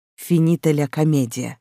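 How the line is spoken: Smirking snort. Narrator (Russian): хмыкнул полтергейст

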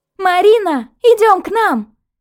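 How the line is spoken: Girls shouting from afar. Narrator (Russian): кричали девушки на берегу озера

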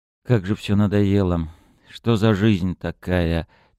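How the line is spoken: Heavy weary sigh. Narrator (Russian): тягостно вздохнул он

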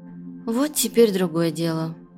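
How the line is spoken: Whisper. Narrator (Russian): прошептала Анна

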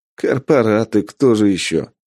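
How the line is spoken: Smirking grunt. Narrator (Russian): хмыкнул бес

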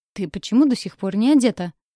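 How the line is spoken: Barked. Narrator (Russian): рявкнул Лясик великолепный

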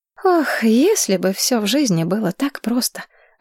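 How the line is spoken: Sigh. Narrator (Russian): вздохнула я

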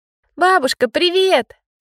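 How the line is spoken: Excited joyful little girl. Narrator (Russian): радостно сказала девочка, взволнованно подпрыгивая на месте

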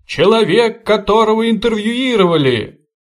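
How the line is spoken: Laughing. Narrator (Russian): Хохотали

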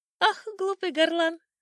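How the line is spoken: Old sparrow laughing, shaking. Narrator (Russian): смеялся старый воробей, вздрагивая своим крошечным тельцем

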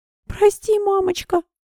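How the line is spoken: Whimpering child. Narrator (Russian): прохныкала Агния

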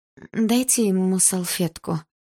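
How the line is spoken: Helpless. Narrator (Russian): беспомощно сказала она

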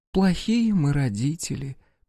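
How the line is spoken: Sad mother. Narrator (Russian): печально покачала головой мама

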